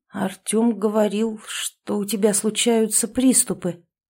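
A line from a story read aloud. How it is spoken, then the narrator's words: Uncertain. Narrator (Russian): неуверенно проговорил я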